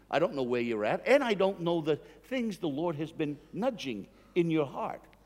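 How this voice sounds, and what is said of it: Northeastern US accent, dropped R's. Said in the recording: “my accent. I'm from the Northeast in the United States, and we take off R's where they go, and we put them where they don't exist.”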